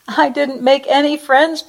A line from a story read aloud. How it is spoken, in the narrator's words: Penelope cried